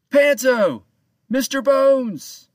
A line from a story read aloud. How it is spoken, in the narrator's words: he called out to his crew